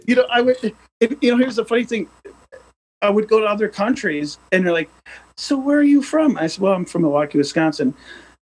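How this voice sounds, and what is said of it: Midwestern Wisconsin accent. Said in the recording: “My accent, too. I mean, I know I have it. ... the Midwest accent”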